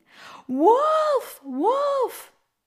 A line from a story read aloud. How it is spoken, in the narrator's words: shouting